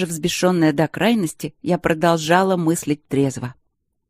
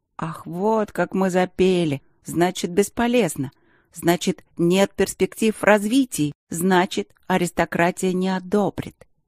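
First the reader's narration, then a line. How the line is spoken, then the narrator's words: Angry hissing tone. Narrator (Russian): Злость поднялась из глубин души, кошачья сущность недружелюбно зашипела, и это отразилось в моих интонациях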